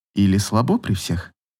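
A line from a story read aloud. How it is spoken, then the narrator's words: Barely audible question. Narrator (Russian): спросила еле слышно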